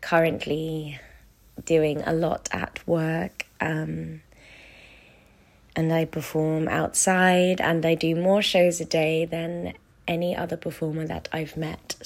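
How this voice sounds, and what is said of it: Strained, fading voice. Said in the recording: “As you may be able to tell, I am losing my voice at the moment.”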